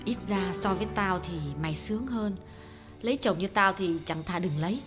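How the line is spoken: Weary sigh. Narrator (Vietnamese): Hương thở dài

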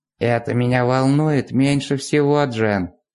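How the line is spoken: Creaky voice. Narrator (Russian): сказала Астрид скрипучим голосом

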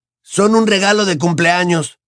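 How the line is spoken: Shrill, struggling shout. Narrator (Spanish): chilló Ron, dando vueltas lentamente en el aire mientras intentaba soltarse

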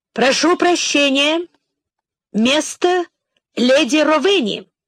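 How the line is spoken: Loud announcement. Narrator (Russian): дворецкий громко произнес

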